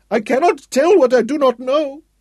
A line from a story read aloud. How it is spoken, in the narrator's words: Rashid howled back